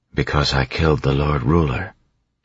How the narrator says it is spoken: she said quietly

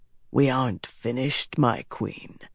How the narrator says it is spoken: he said in a soft voice

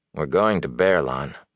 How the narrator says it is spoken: Rand said sleepily

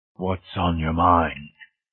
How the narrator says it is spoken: It said, in a loud, rumbling, thunder-like mutter

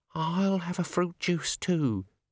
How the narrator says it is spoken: quavered

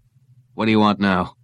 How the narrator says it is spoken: Quayle said harshly

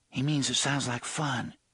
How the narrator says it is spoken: Susanna said quietly

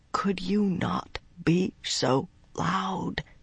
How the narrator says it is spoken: he whispered

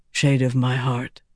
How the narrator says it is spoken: he said softly

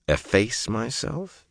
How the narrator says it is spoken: he mumbled

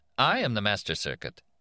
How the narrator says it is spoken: the middle-aged woman said, smiling at him cheerfully

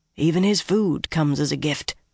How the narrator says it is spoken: Rhaegan said just as quietly

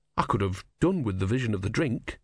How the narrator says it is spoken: he said wearily

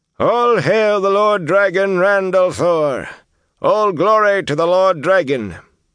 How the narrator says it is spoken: A quick roar filled the chamber to its angle-vaulted ceiling 50 paces up

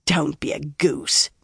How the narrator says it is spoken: Nynaeve scoffed

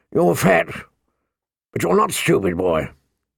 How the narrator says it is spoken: the old bear said gruffly

